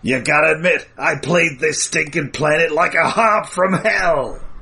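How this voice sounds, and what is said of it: Danny DeVito Penguin impression. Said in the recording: “doing a Burgess Meredith impression ... Or possibly a Danny DeVito impression.”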